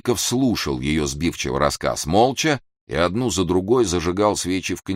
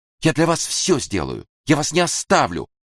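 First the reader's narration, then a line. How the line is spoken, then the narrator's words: Exclaiming. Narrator (Russian): воскликнула Лидина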